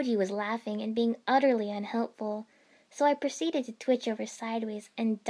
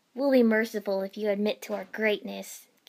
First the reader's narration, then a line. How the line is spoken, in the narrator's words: Kiba declared between fits of laughter